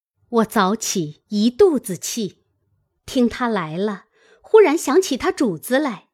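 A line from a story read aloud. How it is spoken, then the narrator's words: Laughing. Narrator (Chinese): 探春笑道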